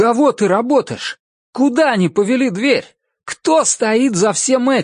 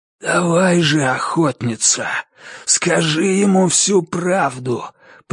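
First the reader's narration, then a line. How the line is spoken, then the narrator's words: Hoarse wheeze. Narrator (Russian): прохрипел маркиз Карабас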